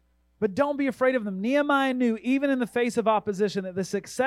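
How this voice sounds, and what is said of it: Usual voice. Nothing is said of it.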